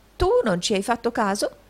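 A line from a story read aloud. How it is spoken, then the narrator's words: Exclaiming tax collector. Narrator (Italian): esclamò il riscossore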